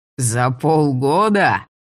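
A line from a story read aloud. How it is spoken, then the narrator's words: Laughing. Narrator (Russian): маг аж рассмеялся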